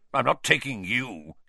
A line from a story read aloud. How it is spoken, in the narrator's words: he snarled